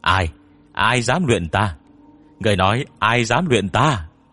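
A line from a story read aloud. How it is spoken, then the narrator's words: Shouting. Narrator (Vietnamese): Lông hét lên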